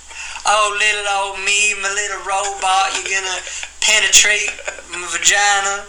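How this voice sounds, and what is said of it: Exaggerated old-fashioned Southern belle accent. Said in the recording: “I'm from the south ... I'm not talking like 1800s Southern Belle”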